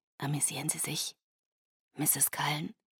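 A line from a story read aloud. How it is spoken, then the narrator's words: Whispered into ear. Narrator (German): flüsterte er mir ins Ohr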